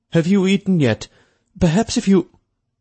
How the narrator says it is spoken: Pitsfield warned, his tone nervous

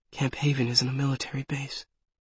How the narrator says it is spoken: I whisper

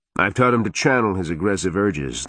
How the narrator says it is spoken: the warded man said, pride evident in his normally emotionless tone

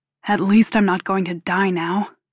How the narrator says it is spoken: he grumbles

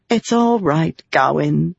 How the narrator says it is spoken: she said with a sigh

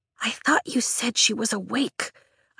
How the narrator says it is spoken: I whisper at Tarn, as if my voice might wake her

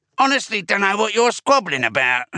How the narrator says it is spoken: said with a dismissive snort

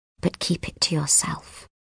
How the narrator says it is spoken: Miss Justineau murmurs

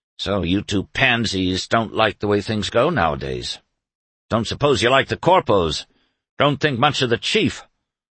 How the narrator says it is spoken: he grumbled

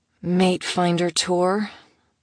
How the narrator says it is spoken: she sighed out

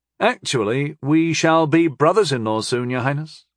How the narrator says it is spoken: he said evenly

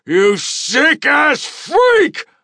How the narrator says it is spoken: I shouted as I pummeled his face and jaw

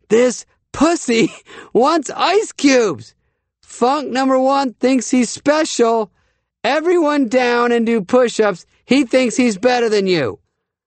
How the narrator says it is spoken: screamed to the entire room

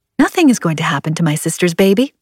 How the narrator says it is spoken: I said, my voice breezy

